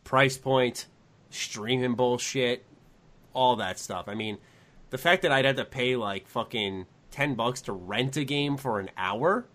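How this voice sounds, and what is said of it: Raspy voice. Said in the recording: “my voice is raspy right now”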